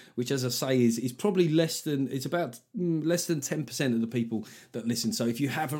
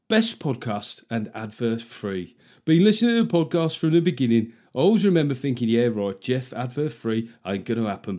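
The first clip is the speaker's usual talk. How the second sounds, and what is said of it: Put-on Black Country accent. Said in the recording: “I've got to read this one in a Yam Yams accent.”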